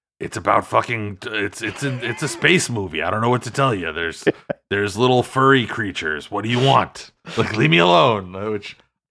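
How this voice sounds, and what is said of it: Truculent imitation of another person's voice. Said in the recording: “in his typical, like, truculent manner ... my impression of Harrison Ford”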